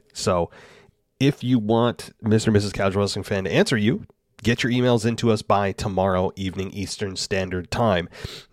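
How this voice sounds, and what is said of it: Sick, congested voice with sniffling. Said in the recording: “I'm still running a bit of a cold, guys, so if I'm sniffling ... if I sound different, yes, I'm still a little bit sick”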